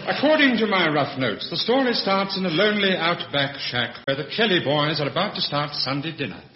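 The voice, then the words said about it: Posh British radio voice. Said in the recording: “his posh radio voice”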